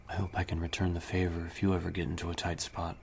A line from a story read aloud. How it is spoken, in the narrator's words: she said softly